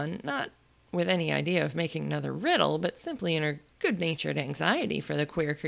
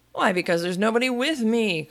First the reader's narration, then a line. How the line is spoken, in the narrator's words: cried Humpty Dumpty